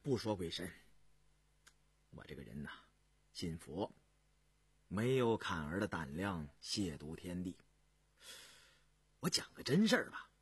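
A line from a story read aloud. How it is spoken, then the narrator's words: Faint smile. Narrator (Chinese): 胤禛淡淡的一笑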